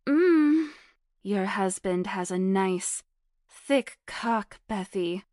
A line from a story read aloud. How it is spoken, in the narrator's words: Hannah moaned out loud